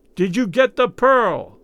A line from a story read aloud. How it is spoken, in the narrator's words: He yelled in Raoul's ear